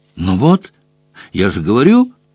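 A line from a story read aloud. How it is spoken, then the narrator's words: Exclaiming. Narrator (Russian): воскликнула Крисси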